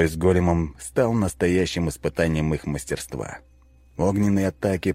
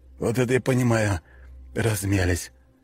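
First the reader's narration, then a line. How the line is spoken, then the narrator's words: Exhaled. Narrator (Russian): выдохнул Волков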